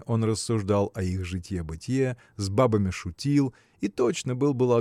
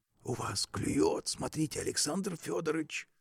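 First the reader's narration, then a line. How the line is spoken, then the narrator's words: Sudden whisper. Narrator (Russian): Вдруг шепотом сказал Костяков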